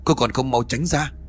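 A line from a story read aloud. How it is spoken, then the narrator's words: Loud shout. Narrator (Vietnamese): Cậu quát lớn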